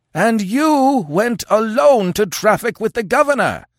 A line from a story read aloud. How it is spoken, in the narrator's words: yelled the Afghuli, working himself into a frothing frenzy